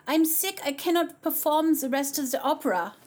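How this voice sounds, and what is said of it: Imitates another person's accent. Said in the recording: “I can't do that accent.”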